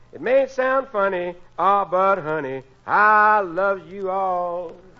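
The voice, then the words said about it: Singing with a heavy accent. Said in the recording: “Oy, what an accent he's got.”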